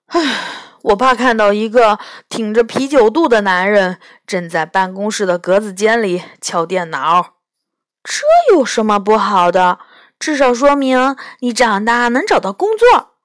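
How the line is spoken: Sighing. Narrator (Chinese): 他叹了一口气说

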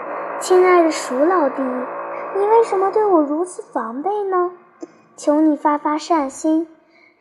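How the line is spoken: Weak, gentle tone. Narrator (Chinese): 他用既虚弱又温柔的语气对老鼠说

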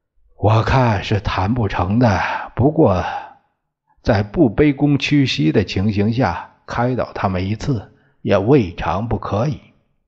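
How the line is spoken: Long sigh. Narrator (Chinese): 孙中山长叹一声

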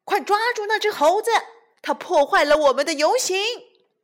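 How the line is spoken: Shouted. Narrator (Chinese): 有人喊

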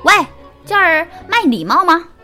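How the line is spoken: Little monkey shouting. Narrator (Chinese): 小猴大喊

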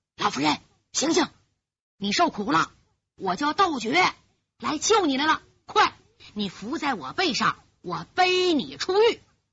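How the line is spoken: Low voice. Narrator (Chinese): 窦爵低声说

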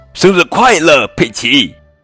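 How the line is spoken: Shouting in unison. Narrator (Chinese): 大家齐声喊道

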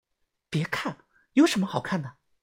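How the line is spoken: Quiet voice. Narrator (Chinese): 小轩小声的说

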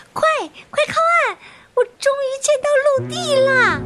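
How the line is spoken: Shouting. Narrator (Chinese): 他大声的喊着

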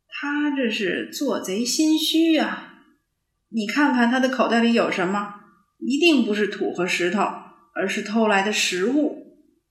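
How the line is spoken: Laughing. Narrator (Chinese): 汪汪笑着说

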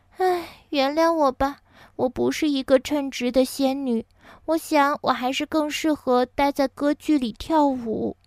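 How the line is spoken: Resigned apologetic sigh. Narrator (Chinese): 仙女无奈的叹了口气，抱歉的说

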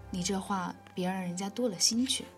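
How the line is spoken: Gentle, unhurried. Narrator (Chinese): 三奶奶柔声缓气地说道

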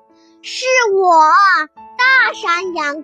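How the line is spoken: Monster roaring. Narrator (Chinese): 山怪吼叫着

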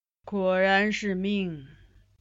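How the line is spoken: Long sigh. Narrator (Chinese): 金上喟然长叹

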